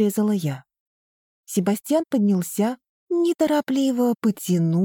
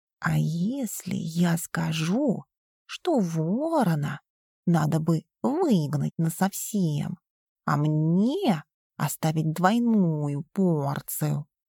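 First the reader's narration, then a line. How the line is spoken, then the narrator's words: Very quiet purr. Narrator (Russian): Мурлыкнул он так тихо, что Крах вряд ли услышал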